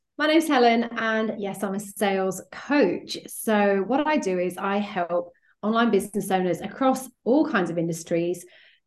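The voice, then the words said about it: British accent. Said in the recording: “as you can tell from my accent, probably, I'm based over in the UK”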